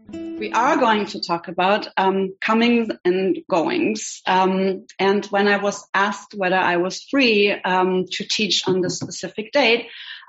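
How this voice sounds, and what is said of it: German accent. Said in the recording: “as you can maybe hear. I have an accent from Germany”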